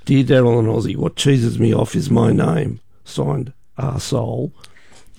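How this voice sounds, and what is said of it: Worn-out, strained voice. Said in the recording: “my voice is shot”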